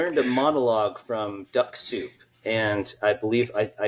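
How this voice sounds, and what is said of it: Usual voice. Nothing is said of it.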